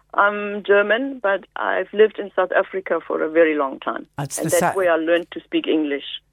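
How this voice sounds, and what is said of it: South African English accent. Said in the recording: “It's the South African accent I can definitely hear”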